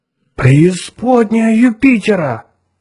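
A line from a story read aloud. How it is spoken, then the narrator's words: Exclaiming. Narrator (Russian): воскликнул Отто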